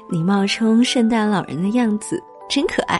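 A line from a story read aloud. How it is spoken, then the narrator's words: Laughing. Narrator (Chinese): 小白兔笑着说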